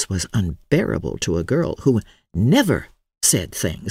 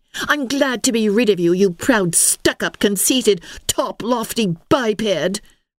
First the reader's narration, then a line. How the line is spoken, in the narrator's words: cried Ilsa